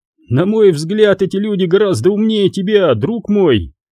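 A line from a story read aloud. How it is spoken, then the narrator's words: Laughing. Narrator (Russian): рассмеялся Джари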